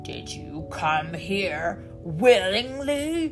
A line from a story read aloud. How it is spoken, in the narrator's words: He roared